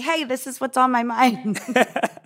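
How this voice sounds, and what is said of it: Cute, adorable little voice. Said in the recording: “Your voice sounds very cute though, saying, hey, with a little hand up. That sounds like an adorable voice. It seems like an emoji with a voice.”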